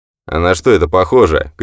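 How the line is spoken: Shouted back. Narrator (Russian): крикнул в ответ Уэбстер

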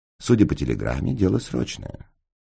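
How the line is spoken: Dry. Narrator (Russian): сухо сказал Холмс

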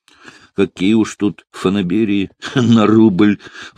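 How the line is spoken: Sigh. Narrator (Russian): вздохнул Фондорин

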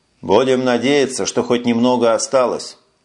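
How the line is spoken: Gloomy reply. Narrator (Russian): мрачно ответил Эш

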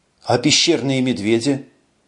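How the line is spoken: Weary sigh. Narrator (Russian): Эш устало вздохнул

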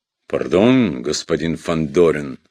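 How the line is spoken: Embarrassed deep voice. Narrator (Russian): смущенно пробасил Бурляев

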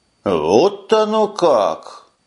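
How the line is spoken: Exclaimed. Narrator (Russian): воскликнул Таргул

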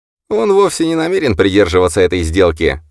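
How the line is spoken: Snorting. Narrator (Russian): фыркнул Леон

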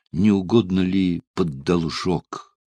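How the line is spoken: Timid question. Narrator (Russian): робко спросил

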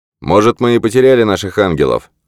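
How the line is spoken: Shouted reply. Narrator (Russian): крикнул в ответ Джордан

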